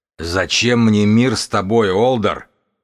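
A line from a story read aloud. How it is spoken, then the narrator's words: Growl. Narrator (Russian): прорычал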